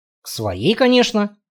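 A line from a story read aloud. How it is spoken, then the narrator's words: Mumbled. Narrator (Russian): пробурчал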